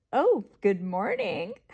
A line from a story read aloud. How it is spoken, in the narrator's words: she giggled and said